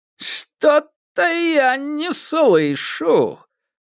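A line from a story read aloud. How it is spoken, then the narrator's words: Menacing drawl. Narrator (Russian): протянул режиссер нехорошим голосом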